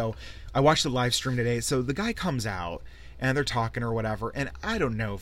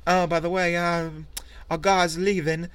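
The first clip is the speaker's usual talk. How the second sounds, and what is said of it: Poor put-on British accent. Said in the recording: “my fucking horrible, like, Beatles/British English accent”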